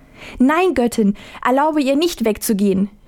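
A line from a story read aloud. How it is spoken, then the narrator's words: Imploring mother's cry. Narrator (German): rief die Mutter beschwörend aus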